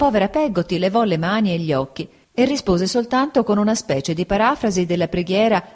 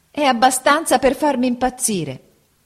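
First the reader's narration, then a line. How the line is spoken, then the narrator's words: Mother shouting. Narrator (Italian): gridò mia madre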